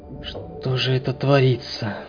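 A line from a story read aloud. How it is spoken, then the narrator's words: Whisper. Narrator (Russian): прошептал Сергей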